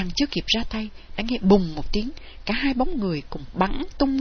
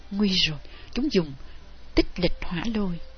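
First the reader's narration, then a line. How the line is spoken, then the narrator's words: Soft alarmed cry. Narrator (Vietnamese): Thanh Phong kêu khẽ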